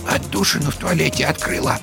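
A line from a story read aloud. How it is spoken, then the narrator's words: Quiet statement. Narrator (Russian): тихо сообщила она Вовке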